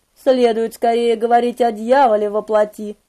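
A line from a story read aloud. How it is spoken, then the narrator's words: Soft teasing. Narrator (Russian): подразнил он мягко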